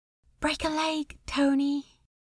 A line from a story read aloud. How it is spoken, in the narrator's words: she whispered into his ear